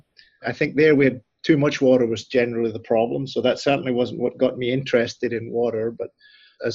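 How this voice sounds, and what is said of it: Scottish accent. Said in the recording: “as you can tell from my accent, I'm not quite from Nebraska. I actually grew up in a rural part of southwest Scotland”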